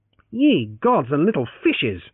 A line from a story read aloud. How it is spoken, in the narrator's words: Francis exclaimed